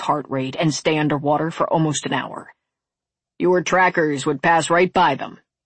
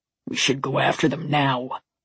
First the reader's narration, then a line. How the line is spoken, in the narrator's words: the male enforcer growled